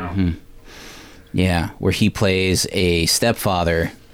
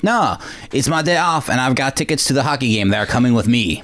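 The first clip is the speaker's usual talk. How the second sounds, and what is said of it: Quebecois-tinged Van Damme impression. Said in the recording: “I don't know why I went Quebecois with my Van Damme accent.”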